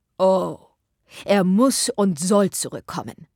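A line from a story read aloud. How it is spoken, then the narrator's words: Calling out. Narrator (German): rief Sir John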